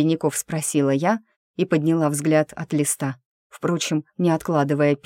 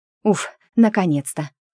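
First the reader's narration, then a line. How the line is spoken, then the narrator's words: Relieved exhale, bursting with excitement. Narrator (Russian): выдохнула подруга, будто была готова вот-вот взорваться от распиравших ее новостей и невозможности теми поделиться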